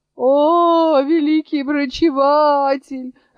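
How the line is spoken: Joyful group exclamation. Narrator (Russian): радостно воскликнули больные

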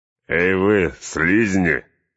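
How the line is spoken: Orcs jeering with laughter. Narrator (Russian): хохотали орки Изенгарда

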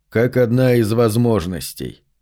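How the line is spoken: Calm. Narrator (Russian): спокойно отвечал мой сын

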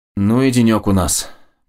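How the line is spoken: Grumbling. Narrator (Russian): проворчал Макс

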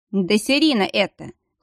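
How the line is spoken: Chuckling. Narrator (Russian): хохотнул Дияр

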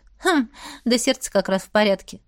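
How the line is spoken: Snort. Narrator (Russian): фыркнула я

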